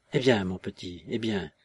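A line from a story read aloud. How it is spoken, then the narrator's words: Gentle. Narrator (French): disait-il doucement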